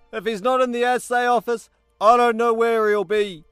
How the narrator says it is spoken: Fatu shouted over the clatter of the engine

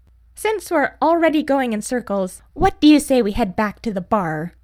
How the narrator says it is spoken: She laughed

